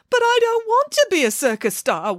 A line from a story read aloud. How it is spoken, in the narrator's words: wailed Bramwellio